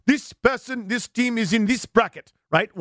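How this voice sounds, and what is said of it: Made-up put-on accent. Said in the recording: “Whatever accent I just made up.”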